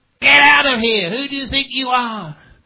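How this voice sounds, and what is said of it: Loud shouting voice. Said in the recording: “raising my voices ... raise my voice”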